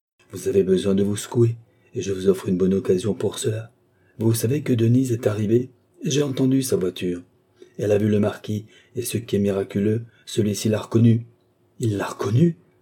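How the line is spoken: Exclaimed. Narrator (French): s'écria M

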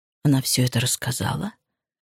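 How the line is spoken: Shocked whisper. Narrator (Russian): шепотом спросил потрясенный Грег

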